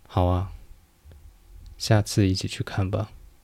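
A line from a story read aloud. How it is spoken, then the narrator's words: Flat, conflicted. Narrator (Chinese): 辛梅尔露出复杂的眼神，淡淡的说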